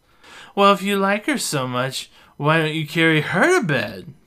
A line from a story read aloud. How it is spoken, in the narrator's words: Beth yells